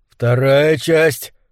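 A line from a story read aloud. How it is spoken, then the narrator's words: Breathless. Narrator (Russian): выдохнул Лу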